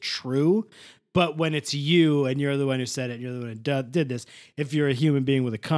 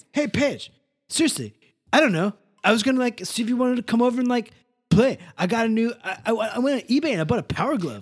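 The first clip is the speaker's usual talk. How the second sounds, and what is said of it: Imitates another person's voice. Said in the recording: “doing this voice”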